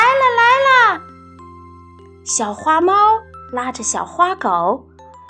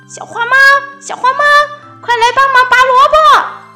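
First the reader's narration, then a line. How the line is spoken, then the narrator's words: Shouting. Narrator (Chinese): 小花狗喊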